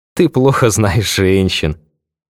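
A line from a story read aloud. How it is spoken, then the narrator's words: Bursting out laughing. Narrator (Russian): расхохоталась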